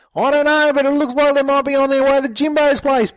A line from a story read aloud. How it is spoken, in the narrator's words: Bricko yelled as he continued to run